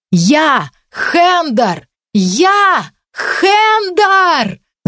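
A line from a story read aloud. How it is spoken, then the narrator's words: Soundless scream. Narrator (Russian): Закричала я, но звука из собственного рта не услышала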